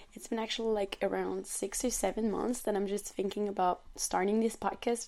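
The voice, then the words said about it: French accent speaking English. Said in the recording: “I'm a young French woman. As you can hear on my accent, I'm not a native English speaker.”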